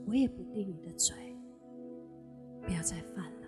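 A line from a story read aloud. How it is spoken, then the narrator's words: Gentle divine voice. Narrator (Chinese): 神温柔的话语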